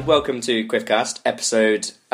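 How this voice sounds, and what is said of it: Radio presenter voice. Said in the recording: “You've done your radio voice.”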